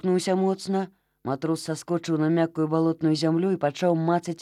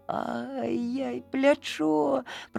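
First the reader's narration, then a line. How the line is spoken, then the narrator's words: Groaning in pain. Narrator (Belarusian): простагнав Олег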